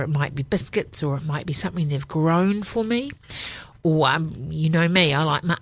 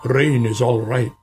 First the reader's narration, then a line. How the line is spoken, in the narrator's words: grumbled Badger